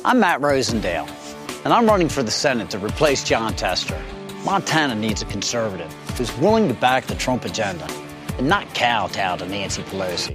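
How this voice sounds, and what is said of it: Maryland accent. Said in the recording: “is that a Maryland accent we're hearing? ... It is a Maryland accent. If you live in Montana, you recognize that's not the Montana accent.”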